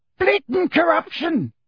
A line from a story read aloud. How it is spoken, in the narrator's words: roared the portrait of the corpulent red-nosed wizard